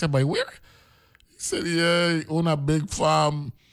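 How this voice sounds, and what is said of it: Usual voice. Nothing is said of it.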